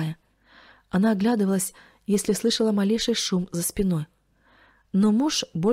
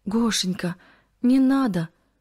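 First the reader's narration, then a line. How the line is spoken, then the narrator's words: Pleading. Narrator (Russian): взмолилась Кристина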